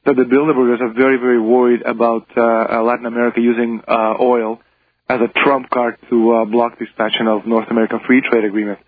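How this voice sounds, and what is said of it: Strained, hoarse, fading voice. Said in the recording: “I've been doing so many interviews, I think I'm losing my voice.”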